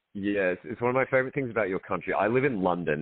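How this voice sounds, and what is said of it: Australian accent. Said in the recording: “There is nothing special about my Australian accent uh, in London ... It's the one place where the accent's quite special.”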